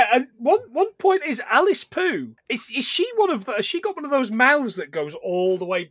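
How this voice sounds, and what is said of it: Usual voice. Nothing is said of it.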